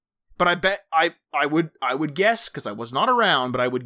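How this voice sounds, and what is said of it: Usual voice. Nothing is said of it.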